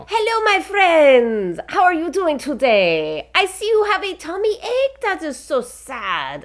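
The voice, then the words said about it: Character voice of a stuffed fox. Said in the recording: “So you have a voice. Can you do the voice? Let's hear some Oatmeal... as Oatmeal the stuffed fox”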